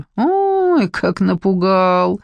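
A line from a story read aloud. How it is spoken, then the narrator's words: Man's amused grunt. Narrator (Russian): хмыкнул мужчина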